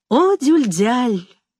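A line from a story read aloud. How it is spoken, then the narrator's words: Affectionate tone. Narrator (Russian): ласково говорил Амет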